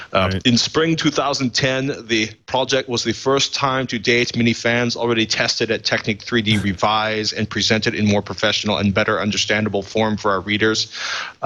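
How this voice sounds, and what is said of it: Put-on German accent. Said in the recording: “German accent mine, not the translators.”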